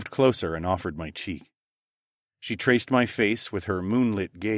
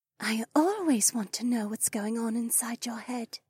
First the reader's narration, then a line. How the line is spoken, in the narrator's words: she whispered